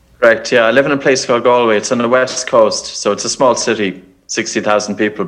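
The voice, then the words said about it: Irish accent. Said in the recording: “I can tell by the accent, ... you probably are from over the water a little bit in Ireland”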